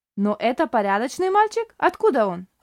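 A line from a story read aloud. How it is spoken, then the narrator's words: Stern question. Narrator (Russian): строго спросила Шарлотта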